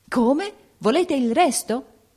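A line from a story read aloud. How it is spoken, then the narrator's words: Prince's shocked exclamation. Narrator (Italian): esclamò il principe impallidendo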